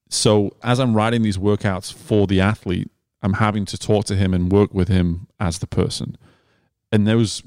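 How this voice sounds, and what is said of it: British accent. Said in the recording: “I have a British accent. I sound really smart. ... Man, the accent is so cute.”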